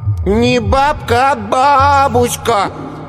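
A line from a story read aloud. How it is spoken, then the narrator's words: Preachy drawl. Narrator (Russian): назидательно протянул Коленька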